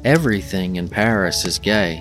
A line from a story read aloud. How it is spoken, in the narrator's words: said Ignatius Gallagher